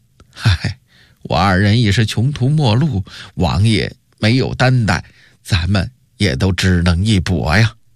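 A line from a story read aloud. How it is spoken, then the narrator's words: Wry rueful. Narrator (Chinese): 王贤苦笑着说道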